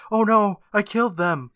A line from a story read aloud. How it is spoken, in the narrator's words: he yells